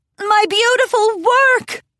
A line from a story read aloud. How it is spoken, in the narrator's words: Rarity cried out in horror